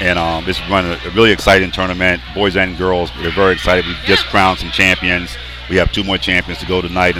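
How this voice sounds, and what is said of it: Hoarse, worn-out, nearly lost voice. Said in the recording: “I'm really tired ... my voice is completely gone.”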